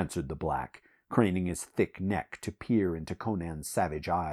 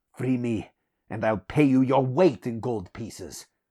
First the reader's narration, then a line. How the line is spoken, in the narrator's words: growled Conan